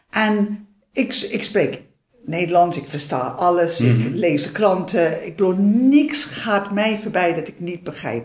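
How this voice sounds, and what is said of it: Dutch spoken with English accent. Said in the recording (Dutch): “ik heb natuurlijk nog steeds een Engelse accent ... Dat ik nog een accent had”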